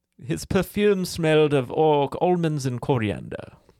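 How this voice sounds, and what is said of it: Weird put-on character accent. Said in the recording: “I did a really weird accent ... This is literally my accent ... So I did that accent.”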